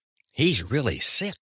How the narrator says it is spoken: he told Mathild in a low voice

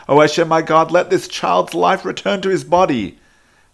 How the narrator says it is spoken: cried out to Hashem, saying

